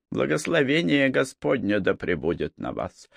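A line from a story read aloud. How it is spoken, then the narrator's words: Cautious mutter. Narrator (Russian): осторожно пробормотал отец Лео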